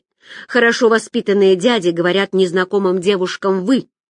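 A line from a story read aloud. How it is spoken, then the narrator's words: Man's amused grunt. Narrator (Russian): толстяк хмыкнул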